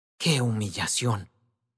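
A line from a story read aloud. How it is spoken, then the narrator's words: Young man murmuring. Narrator (Spanish): murmuró el joven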